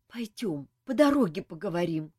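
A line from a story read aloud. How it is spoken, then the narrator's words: Heavy sigh. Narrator (Russian): тяжко вздохнул принц Мафей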